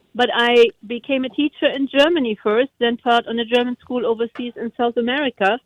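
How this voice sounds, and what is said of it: Non-native English accent. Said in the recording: “as you might hear on my accent, not Native American”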